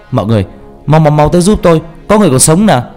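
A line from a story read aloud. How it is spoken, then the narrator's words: Urgent call. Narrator (Vietnamese): Lập tức anh la lên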